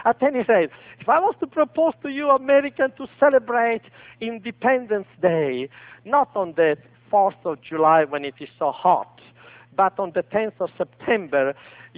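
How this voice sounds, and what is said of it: Italian accent. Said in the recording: “my accent is still Italian”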